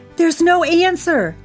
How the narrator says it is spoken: cried Gertie

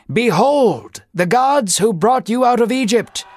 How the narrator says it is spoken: Unaware of his ignorance, Jeroboam yelled to the people

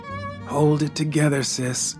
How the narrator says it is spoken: I murmured

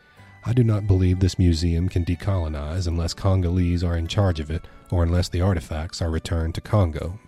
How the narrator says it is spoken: says

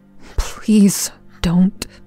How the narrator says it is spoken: I muttered

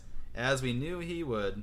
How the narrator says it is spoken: she sighed

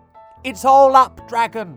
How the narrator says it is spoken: he shouted

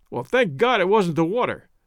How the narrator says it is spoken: cried Tompkins

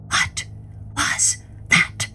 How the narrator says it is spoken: he whispered in terror

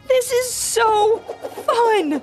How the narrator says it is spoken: the kids shouted

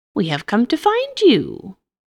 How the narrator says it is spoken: a shrill voice exclaimed

